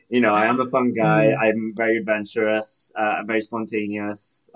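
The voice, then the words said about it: Welsh accent. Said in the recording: “Welsh King. ... have an accent”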